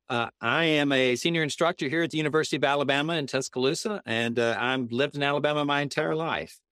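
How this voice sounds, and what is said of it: Noticeable regional accent. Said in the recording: “You got a little bit different of an accent than I do.”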